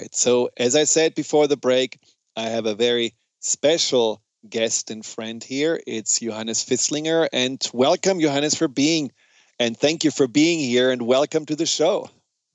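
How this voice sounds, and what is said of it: German accent. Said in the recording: “We both have the German accent ... someone told me once that the German accent is very hypnotic”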